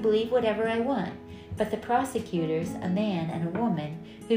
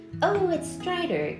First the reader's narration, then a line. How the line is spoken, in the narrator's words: Grace exclaimed, excited to see someone she knew first thing